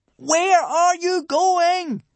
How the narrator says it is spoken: Hiccup cupped his hands and shouted

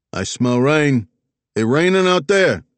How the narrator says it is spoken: the receptionist Marlin called out in a Bronx bellow

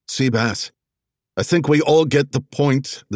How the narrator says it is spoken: the red-headed woman called out

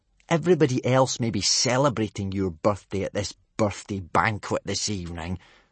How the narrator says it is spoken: Snotlout had snarled

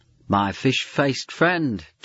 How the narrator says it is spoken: chuckling

